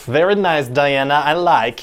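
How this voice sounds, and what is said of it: Silly Borat-like accent. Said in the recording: “make everyone talk a little silly ... it's gonna sound a little like Borat.”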